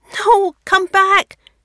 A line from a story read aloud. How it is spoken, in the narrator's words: she shrieks